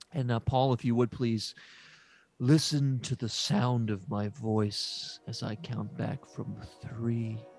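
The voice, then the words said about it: Calm, soothing meditation voice. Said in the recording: “did your voice just change? ... this is my meditation voice to calm you and put you in a relaxed ... This is just a very calm.”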